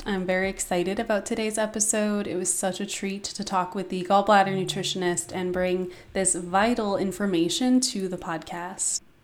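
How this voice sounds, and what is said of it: Voice sounds a little weird, ill. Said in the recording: “My voice may sound a little bit weird today. I just got over a horrible cold.”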